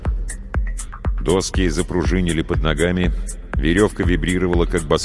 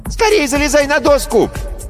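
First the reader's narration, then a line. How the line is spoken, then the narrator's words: Girlish shriek. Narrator (Russian): взвизгнул девчачий голос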